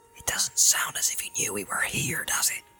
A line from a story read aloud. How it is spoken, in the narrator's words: whispered Sam